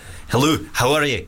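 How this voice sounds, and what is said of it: Put-on Scottish accent. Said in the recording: “Scottish.”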